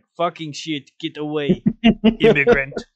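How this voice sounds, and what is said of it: Put-on Italian accent. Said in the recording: “Good Italian impression”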